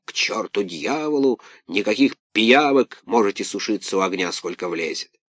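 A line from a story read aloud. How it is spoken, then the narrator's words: Grumbling. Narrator (Russian): Сеньор Карабас-Барабас проворчал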